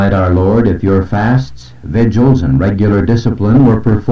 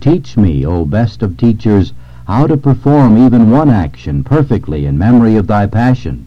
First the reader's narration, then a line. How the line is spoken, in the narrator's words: exclaimed Gertrude